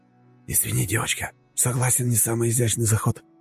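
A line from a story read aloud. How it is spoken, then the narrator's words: Mutter. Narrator (Russian): пробормотал он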